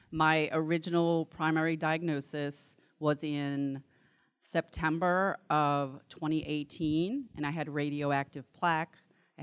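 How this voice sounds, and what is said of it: New Orleans accent. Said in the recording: “this is a New Orleans accent, not a Mississippi accent.”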